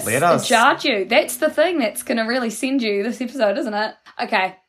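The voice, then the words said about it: New Zealand accent. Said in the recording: “I've never heard someone say lettuce like that... the New Zealand accent”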